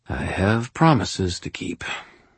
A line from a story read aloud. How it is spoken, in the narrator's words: I sighed to myself